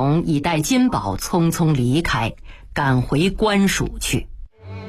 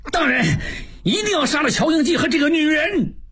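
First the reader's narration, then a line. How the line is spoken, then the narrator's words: Loud shout. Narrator (Chinese): 望柏大叫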